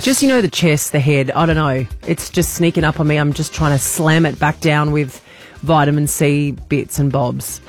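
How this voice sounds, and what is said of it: Croaky, husky voice. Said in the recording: “I'm feeling a bit croaky this morning. I feel like I've got my sexy voice.”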